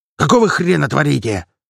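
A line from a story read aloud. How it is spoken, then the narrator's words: Surprised bark. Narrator (Russian): гаркнул от удивления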